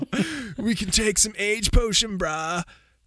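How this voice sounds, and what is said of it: Put-on dudebro character voice. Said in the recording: “I don't know why I'm doing this voice for them now. ... It's closer to a Yamcha, probably.”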